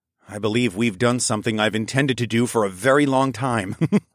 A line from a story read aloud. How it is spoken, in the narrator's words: I chuckled